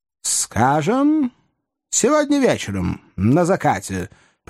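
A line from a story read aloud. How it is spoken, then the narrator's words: Casual, offhand suggestion. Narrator (Russian): предложил офицер небрежным тоном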